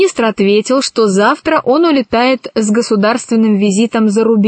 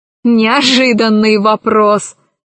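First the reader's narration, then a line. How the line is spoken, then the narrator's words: Laughing. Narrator (Russian): засмеялась Кора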